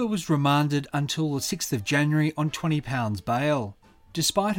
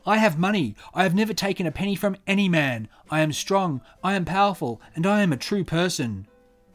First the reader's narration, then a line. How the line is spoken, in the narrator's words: she shouted